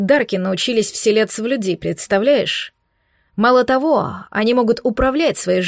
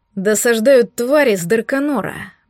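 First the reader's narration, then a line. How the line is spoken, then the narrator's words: Gloomy reply. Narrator (Russian): мрачно отозвался Дорн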